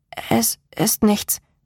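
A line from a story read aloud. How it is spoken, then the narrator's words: Stammer. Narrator (German): stammelte ich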